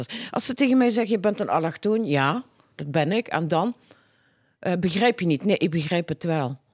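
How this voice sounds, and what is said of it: Limburg accent in Dutch. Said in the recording (Dutch): “een allochtoon met een Limburgse accent.”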